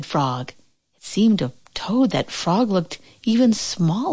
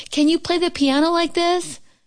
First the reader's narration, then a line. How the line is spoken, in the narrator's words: cried Toad